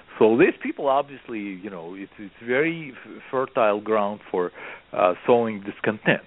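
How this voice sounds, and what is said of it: Strong non-native English accent. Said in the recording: “I may speak with a horrible accent”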